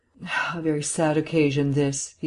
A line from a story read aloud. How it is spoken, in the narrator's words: he sighed